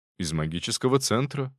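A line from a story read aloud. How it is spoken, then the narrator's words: Calm reply. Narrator (Russian): спокойно отозвался я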